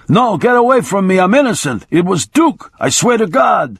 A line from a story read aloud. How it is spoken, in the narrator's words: began shouting